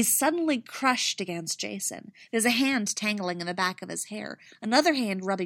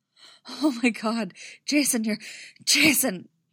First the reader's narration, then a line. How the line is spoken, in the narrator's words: he gasps, trembling all over